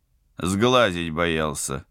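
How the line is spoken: Wry snort. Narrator (Russian): хмыкнул пилот

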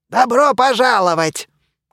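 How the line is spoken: Loud announcement. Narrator (Russian): громко объявил мумий

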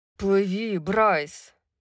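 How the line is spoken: Growling. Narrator (Russian): прорычал Тарион

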